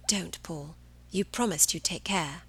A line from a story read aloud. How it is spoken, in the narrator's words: Cahill whispered